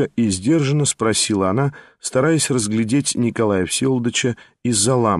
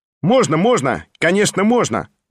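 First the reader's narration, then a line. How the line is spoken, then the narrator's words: Loud cheerful shout. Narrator (Russian): Громко и весело крикнул сам Петр Степанович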